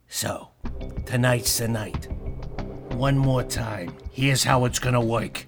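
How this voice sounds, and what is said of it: Put-on accent. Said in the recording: “You mind going back to the accent?”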